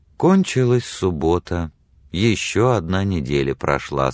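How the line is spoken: Sad. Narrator (Russian): сказала печально Мэри

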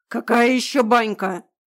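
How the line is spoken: Roaring. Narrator (Russian): взревел этот эльфийский сын Деда Мороза

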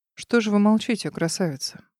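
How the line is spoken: Velvety male voice. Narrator (Russian): Бархатным голосом спросил мужчина

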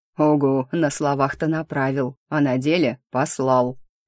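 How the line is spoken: Grumbled. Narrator (Russian): проворчал первый

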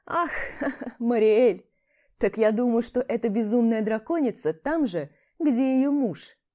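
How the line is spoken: Forced, unnatural laughing woman. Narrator (Russian): Как-то наигранно и ненатурально засмеялась женщина

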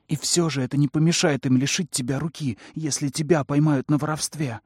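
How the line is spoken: Irritated snapping. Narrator (Russian): огрызнулась, раздраженная его безрассудством

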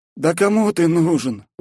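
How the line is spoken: Tired sigh. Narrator (Russian): устало вздохнул он

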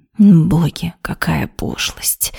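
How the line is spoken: Displeased hiss. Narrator (Russian): С недовольной миной прошипела Вероника

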